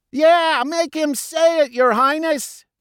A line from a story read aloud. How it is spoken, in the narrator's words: they shouted